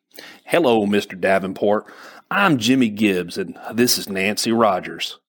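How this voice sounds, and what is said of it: Friendly Texan southern accent. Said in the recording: “He had a southern accent, Texas maybe, but was friendly and jovial ... pronounced it like ... Texas all the way.”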